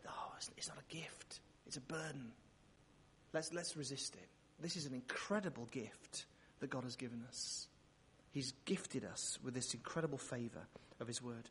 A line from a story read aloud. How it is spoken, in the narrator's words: Satan will whisper